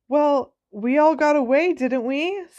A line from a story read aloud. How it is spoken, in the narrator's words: said Cho pleadingly